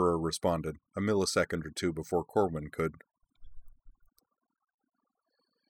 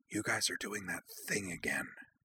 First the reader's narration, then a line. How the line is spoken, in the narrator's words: Utna whispered